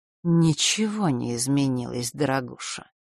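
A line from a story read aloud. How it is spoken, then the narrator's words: Gloomy woman. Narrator (Russian): мрачно ответила часовщица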